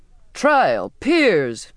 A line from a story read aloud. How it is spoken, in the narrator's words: the captain cried mockingly